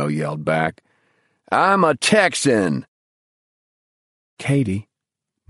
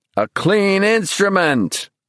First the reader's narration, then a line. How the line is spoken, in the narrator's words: Bruno shouted jubilantly, for no one could possibly hear him